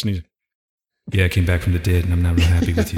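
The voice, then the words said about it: Deep-voiced imitation of another person. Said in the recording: “He did have a deep voice. ... Prince had a low voice”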